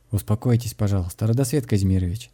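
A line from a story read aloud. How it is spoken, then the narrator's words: Calm voice. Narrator (Russian): спокойным голосом ответил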